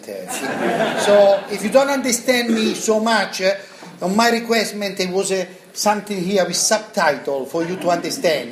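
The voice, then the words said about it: Non-native accented English. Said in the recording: “I will talk tonight with a little bit accent.”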